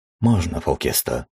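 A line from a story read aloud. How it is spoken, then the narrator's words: Quiet reply. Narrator (Russian): тихо ответил я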